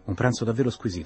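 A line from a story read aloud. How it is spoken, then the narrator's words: Plain. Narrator (Italian): disse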